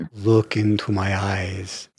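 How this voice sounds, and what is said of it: Dracula impersonation. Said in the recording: “his Dracula impersonation.”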